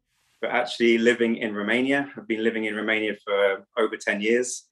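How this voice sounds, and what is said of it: English accent. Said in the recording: “maybe they picked up an accent there ... I am from England”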